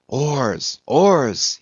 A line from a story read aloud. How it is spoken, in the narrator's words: he intensely whispered